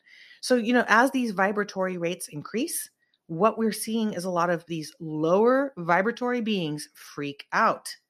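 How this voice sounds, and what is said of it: Worn, fading voice. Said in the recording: “I've been on the microphone all day. So my voice is going a little bit here.”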